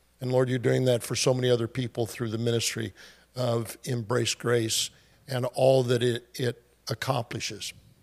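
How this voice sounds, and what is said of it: Hoarse voice. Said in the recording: “All of a sudden, I got hoarse voice.”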